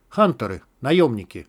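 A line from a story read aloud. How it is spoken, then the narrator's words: Plain. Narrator (Russian): сказал Мякиш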